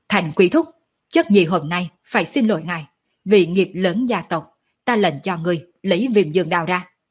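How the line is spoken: Loud shout. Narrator (Vietnamese): Mạc Thiên Vân hét lớn một tiếng

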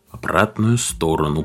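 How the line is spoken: Whispering radio. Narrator (Russian): прошептал транзистор

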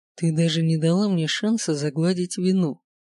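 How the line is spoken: Deceptively calm. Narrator (Russian): произносит обманчиво спокойно

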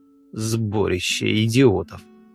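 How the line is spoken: Grumbled to nobody. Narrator (Russian): проворчал я в пустоту

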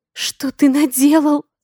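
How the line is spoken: Sobbing. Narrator (Russian): Всхлипываю

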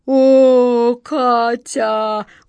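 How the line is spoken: Deep rumbling genie voice. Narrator (Russian): густым голосом пророкотал джинн

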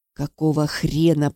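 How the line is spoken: Annoyed, through gritted teeth. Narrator (Russian): процедила я сквозь зубы, досадуя на нежелание клиента следовать моим инструкциям

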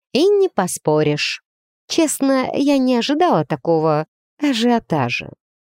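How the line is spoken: Sighing admission. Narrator (Russian): Вира, вздохнув, признала

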